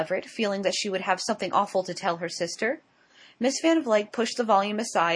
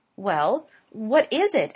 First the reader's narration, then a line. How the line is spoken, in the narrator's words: exclaimed Laura Glyde excitedly